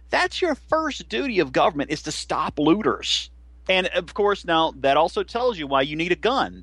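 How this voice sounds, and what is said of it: Southern American drawl. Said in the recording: “your Southern accent ... Your Southern drawl ... he sounds like he's from the Andy Griffith Show”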